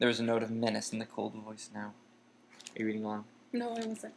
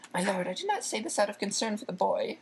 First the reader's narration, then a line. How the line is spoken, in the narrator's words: said Wormtail, his voice rising squeakily